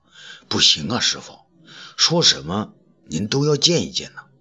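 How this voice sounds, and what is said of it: Quiet, hushed pleading voice. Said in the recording (Chinese): “小声的劝阻道”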